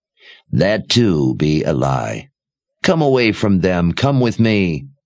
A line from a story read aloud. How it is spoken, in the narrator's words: Addie said in a quiet rasp